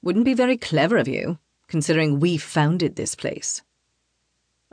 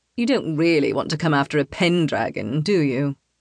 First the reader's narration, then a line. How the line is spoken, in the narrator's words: Tarquin asks in a mocking tone